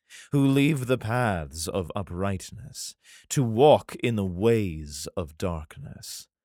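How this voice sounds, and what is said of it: Put-on sexy reading voice. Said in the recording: “My sexy voice is nice.”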